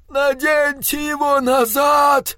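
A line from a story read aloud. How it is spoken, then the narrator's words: Captain bellowing. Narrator (Russian): орал капитан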